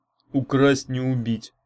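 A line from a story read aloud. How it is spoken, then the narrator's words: Through gritted teeth. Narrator (Russian): процедил Урк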